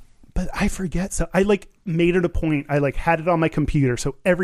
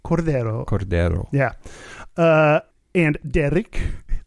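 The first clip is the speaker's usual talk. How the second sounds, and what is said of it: Put-on Spanish accent. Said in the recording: “Got to use my Spanish accent... I'm already in the accent”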